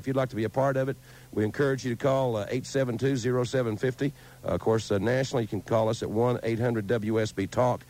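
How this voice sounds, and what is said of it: Hoarse voice. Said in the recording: “You can tell I'm a little hoarse because it was like doing the Super Bowl last night”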